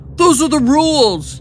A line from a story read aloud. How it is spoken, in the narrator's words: Gerald yelled